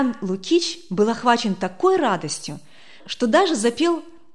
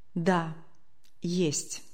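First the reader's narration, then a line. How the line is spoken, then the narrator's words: Quiet, sheepish. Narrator (Russian): как-то тихо, точно конфузясь или каясь в совершенном поступке, произнес Матюнин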